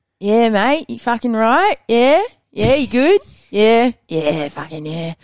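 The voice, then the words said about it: Put-on Queensland Australian accent. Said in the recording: “so Queenslander is like”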